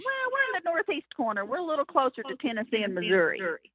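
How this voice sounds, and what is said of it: Arkansas accent. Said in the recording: “where is that accent from? Because I like it. ... Arkansas.”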